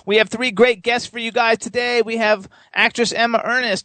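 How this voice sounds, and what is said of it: Strained, fading voice. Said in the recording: “God, I'm losing my voice.”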